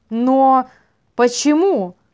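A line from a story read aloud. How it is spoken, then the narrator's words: Exclaimed. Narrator (Russian): воскликнул Касаис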